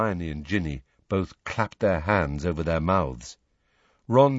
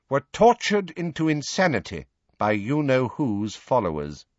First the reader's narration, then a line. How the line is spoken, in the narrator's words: she said, turning haughtily